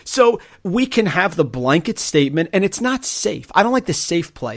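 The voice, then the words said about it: Overbearing know-it-all character voice. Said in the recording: “give this voice that you're using ... like, sure, Overriding, like, I know it all voice that you're using. It's hilarious.”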